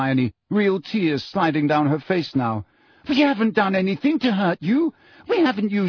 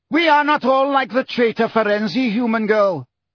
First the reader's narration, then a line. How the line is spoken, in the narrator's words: shouted the Grey Centaur